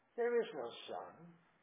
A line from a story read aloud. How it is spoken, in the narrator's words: She repeated in a softer and deeper voice